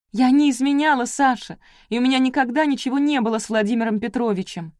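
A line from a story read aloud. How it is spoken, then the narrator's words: Shouting. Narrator (Russian): закричала Александра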